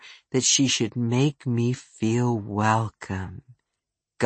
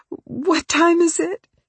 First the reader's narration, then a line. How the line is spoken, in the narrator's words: She blurted it